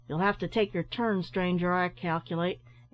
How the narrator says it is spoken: answered the storekeeper somewhat sharply

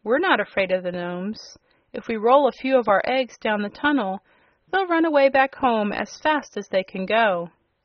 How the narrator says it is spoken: cried the Yellow Hen

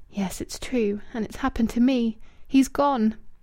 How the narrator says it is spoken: She whispered alone in the room

